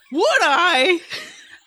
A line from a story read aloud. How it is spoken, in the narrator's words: shouted Bo